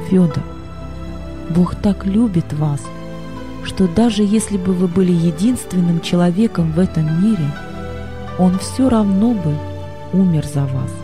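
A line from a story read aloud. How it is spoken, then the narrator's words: Soft. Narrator (Russian): Боб мягко сказал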